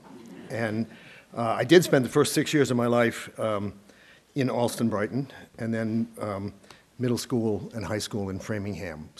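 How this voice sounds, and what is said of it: Boston accent. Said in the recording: “As you will hear in my voice, I think, as time passes, ... I am originally a Bostonian.”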